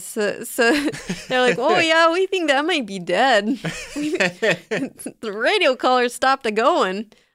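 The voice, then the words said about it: Fargo-style Minnesota accent. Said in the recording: “I'm going to go with a Fargo accent”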